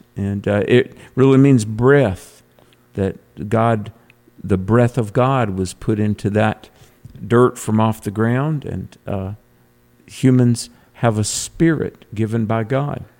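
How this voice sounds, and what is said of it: North Carolina Southern accent. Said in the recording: “my North Carolina brogue”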